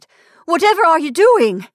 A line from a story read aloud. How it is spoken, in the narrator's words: she cried